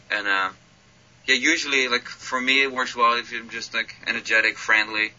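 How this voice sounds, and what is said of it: Dutch accent. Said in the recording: “with my accent, it's kind of cool that you're from Holland”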